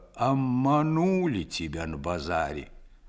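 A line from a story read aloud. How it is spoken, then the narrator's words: Muffled old man's voice. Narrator (Russian): Дед вымолвил глухо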